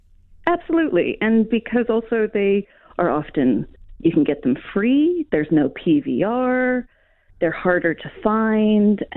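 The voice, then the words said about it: Non-New Zealand English accent. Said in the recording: “you came to New Zealand. You haven't lived here all your life. I'm just guessing that from your accent.”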